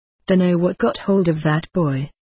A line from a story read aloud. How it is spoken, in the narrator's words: said Martin Bond